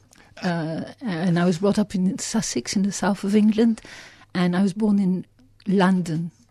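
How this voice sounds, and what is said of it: Light French accent over English. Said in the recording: “so you still have a French accent ... it's a Vegemite of a French accent over the top of the English underneath”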